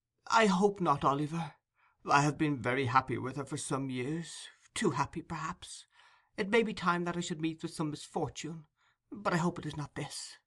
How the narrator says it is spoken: she said in a trembling voice

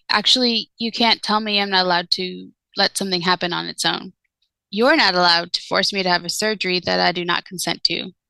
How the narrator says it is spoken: answered calmly

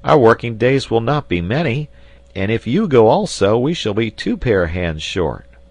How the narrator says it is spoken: exclaimed the sailor

